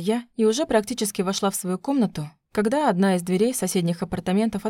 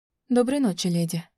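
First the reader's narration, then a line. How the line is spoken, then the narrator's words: Quiet woman's voice. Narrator (Russian): тихо сказала женщина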